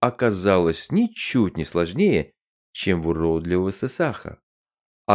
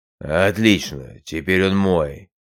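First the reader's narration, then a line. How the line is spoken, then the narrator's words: Snorting creature. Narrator (Russian): фыркнул хаттаж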